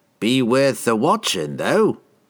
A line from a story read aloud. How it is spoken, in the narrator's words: chuckled another